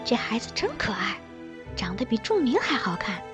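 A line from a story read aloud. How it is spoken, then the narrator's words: Low voice. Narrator (Chinese): 低声对我说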